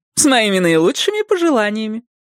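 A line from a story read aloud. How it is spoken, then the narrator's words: Joyful woman. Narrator (Russian): радостно сказала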